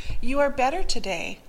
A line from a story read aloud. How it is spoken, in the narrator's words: I exclaimed